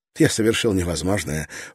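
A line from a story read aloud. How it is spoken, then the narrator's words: Nervous laugh. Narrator (Russian): он нервно рассмеялся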